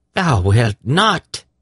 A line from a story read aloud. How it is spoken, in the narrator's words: she exclaimed